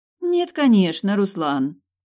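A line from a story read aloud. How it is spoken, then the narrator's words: Offended pouting. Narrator (Russian): Обиженно дует губы девушка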